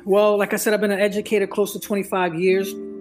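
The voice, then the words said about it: Philadelphia accent. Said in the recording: “I'm originally from Philly, as you can tell by my accent,”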